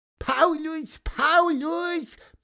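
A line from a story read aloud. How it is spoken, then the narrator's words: Squeaky voice. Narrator (German): piepste Pieper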